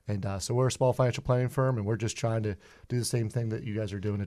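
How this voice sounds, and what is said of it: Pittsburgh accent. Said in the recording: “a German word that I pronounce incorrectly because of my Pittsburgh accent”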